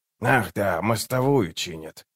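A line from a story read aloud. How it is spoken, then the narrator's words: Mutter. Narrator (Russian): пробормотал Круп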